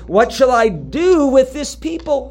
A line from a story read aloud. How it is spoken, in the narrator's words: Moses cries out to the Lord